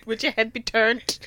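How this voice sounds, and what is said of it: Weak put-on accent. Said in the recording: “What was that accent again? ... No, you need to practice that.”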